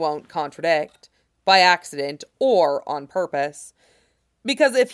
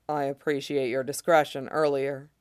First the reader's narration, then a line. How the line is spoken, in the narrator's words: he says, his voice low, but not overmuch so